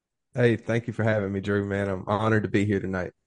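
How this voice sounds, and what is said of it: American accent. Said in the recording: “With your accent, I've got like the Thanos Infinity Stones of all the American accents”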